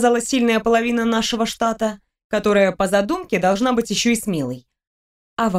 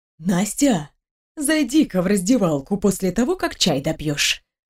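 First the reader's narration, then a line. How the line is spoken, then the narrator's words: Conspiratorial whisper. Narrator (Russian): заговорчески прошептала Марья Васильевна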